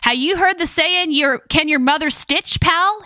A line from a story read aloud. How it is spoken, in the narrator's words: he yelled